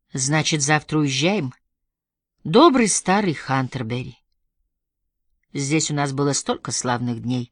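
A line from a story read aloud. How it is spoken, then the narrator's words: Wistful sigh. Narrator (Russian): вздохнул Родди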